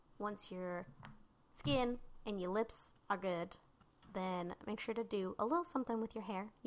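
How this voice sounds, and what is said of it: Polished radio announcer voice. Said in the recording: “that's enough radio voice for today ... You have a beautiful radio voice.”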